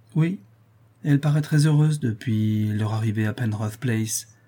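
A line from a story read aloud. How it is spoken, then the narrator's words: Melancholy tone. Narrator (French): répond Vivien d'un ton mélancolique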